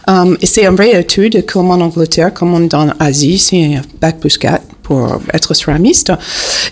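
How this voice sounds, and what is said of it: Slight American accent in French. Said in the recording (French): “Petit accent américain, peut-être ... un petit peu.”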